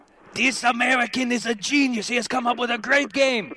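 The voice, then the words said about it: Poor put-on German accent. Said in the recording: “That was my attempt in a German accent. It wasn't very good.”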